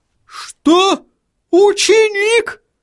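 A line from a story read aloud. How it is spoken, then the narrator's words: Astonished exclamation. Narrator (Russian): воскликнул господин Тюльпан, и от изумления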